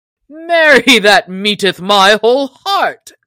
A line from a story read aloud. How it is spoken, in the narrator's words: cried the stranger